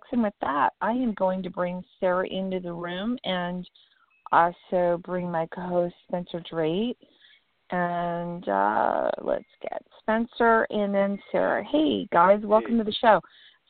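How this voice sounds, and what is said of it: Rough, hoarse voice. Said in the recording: “my voice is a little rough today”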